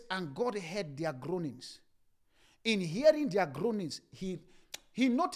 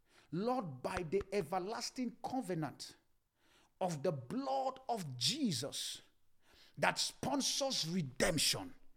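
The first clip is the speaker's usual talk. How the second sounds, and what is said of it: Speaks slowly and deliberately. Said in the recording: “I'm going to say it slowly”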